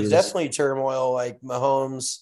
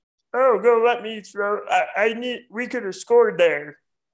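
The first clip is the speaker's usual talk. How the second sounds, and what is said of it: Imitates another person's voice. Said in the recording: “my impression of Frogger ... Was that pretty good? ... That was really good, dude.”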